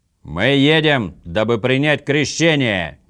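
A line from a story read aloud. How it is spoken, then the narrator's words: Impatient shout. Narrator (Russian): нетерпеливо крикнул Орм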